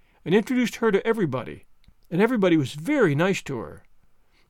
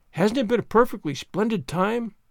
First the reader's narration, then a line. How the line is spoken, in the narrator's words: sighed Jane